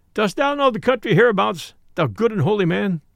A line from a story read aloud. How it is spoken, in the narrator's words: asked Robin, laughing